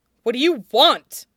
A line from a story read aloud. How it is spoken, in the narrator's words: barks, anger at himself making him sharp